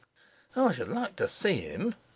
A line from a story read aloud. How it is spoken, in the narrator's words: muttered the nurse